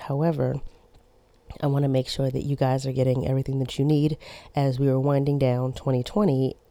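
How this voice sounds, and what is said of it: Hoarse, worn-out sick voice. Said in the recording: “my voice is kind of shot. I am sick.”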